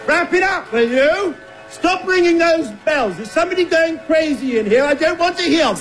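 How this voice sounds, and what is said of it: Angry shouting. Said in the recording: “Stop shouting!”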